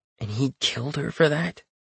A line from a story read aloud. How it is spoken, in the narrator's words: I mutter